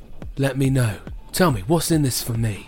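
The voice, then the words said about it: Put-on accent, switched mid-scene. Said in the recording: “You've changed accents”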